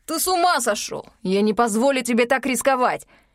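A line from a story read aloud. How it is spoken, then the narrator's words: Shouting over howling wind. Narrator (Russian): Перекрывая вой вихря, орал двойник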